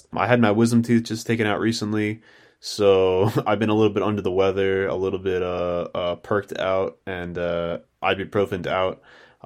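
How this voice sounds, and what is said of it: Tired, dejected-sounding voice. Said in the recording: “my voice is so dejected sounding like this, and I'm tired”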